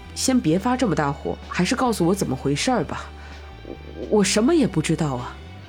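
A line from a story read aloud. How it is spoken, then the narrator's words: Trembling voice. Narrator (Chinese): 终于声音颤抖的说道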